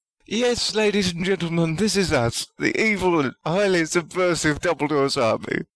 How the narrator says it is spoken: sobbed Justin

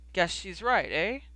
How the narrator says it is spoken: He chuckled at himself

